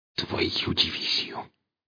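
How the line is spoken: Angry hiss. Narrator (Russian): зло прошипел сталкер

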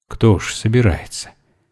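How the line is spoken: Quiet. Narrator (Russian): тихо сказал Вере Шершнев

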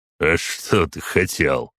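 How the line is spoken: Snorting. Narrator (Russian): фыркнул полковник

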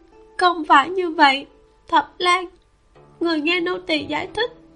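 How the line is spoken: Sobbing. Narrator (Vietnamese): Xuân Lai nức nở nói

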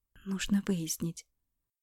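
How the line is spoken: Quiet. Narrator (Russian): говорила Алена тихо

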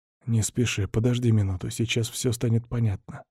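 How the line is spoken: Whispered answer. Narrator (Russian): ответил шепотом

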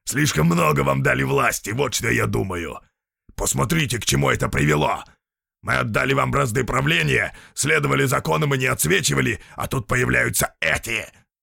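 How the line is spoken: Growled. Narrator (Russian): Он рыкнул

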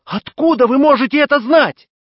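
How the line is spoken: Exclaim. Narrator (Russian): Я воскликнул

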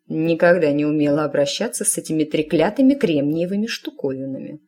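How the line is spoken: Grumbling. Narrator (Russian): проворчала она

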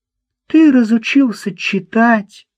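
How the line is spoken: Exclaiming. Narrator (Russian): воскликнула Марта

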